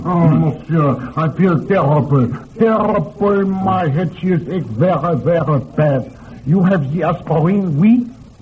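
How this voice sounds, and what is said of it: Foreign accent. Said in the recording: “you make joke with my accent”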